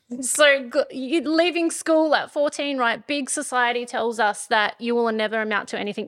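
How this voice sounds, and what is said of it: Rural country accent. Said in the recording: “I have an accent... it's country, not bogan.”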